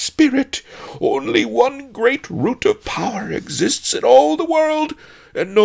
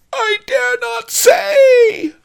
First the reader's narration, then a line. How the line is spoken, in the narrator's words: Fang wailed